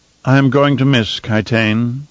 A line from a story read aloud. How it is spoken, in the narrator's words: Fenring said in an odd, somber tone